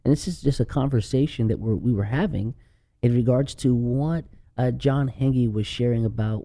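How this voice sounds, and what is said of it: Speaks with a noticeable accent. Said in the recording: “Are they making fun of my accent?”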